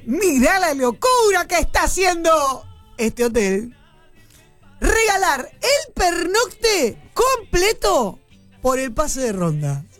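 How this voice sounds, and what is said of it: Announcer voice. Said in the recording (Spanish): “voz de locutor”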